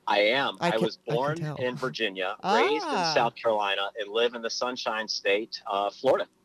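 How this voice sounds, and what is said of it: Subtle, slight accent. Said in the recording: “I can hear your accent. It's very it's subtle. ... I can hear just a little smidge.”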